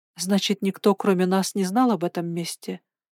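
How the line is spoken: Quiet, pensive question. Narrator (Russian): тихо спросила я, все еще переваривая его слова

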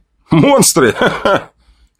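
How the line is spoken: Soldier's short laugh. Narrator (Russian): хохотнул один из бойцов

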